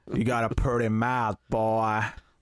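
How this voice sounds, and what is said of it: Put-on exaggerated American accent. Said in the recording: “like an offensive American accent”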